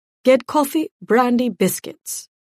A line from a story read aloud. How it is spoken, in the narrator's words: the Viscount snapped